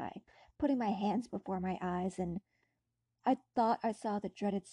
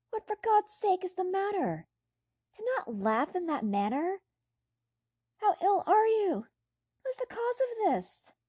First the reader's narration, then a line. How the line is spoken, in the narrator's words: cried